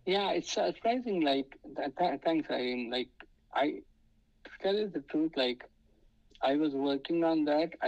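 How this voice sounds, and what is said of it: Indian English accent. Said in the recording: “they're not used to seeing, like, an Indian guy... And then they see my accent”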